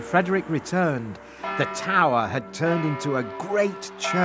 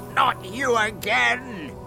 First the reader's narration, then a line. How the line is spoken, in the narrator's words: shouted the magic fish angrily